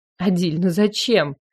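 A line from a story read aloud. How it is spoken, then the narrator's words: Helpless breathy exhale. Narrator (Russian): выдохнула я беспомощно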